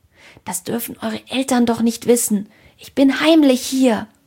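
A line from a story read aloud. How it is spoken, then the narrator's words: Hissed secretive warning. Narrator (German): zischte Ede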